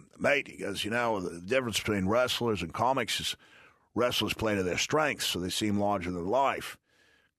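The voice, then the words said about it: Put-on Australian accent. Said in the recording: “this is me doing my Australian accent, because I can't do Brendan Burns unless I'm doing his Australian accent. ... And I probably got it all wrong.”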